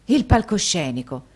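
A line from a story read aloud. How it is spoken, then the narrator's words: Forceful exclamation. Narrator (Italian): esclamò Nicola quasi con la stessa forza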